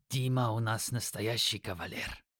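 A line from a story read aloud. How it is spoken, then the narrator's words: Snorting. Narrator (Russian): хмыкнул Юки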